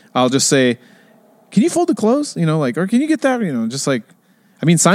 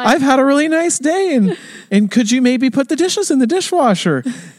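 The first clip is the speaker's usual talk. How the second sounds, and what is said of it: High-pitched imitated voice. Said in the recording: “talk in a high voice... your Seinfeld impression's pretty good”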